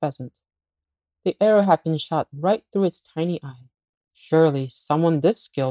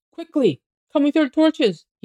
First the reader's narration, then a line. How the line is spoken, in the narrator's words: cried